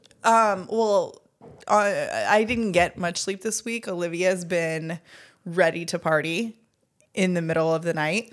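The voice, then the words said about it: Slightly hoarse voice. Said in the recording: “you sound a little bit hoarse ... I'm a little hoarse”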